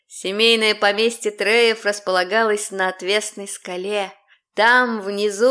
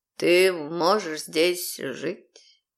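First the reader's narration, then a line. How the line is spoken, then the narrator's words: Soft-spoken. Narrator (Russian): негромко произнес он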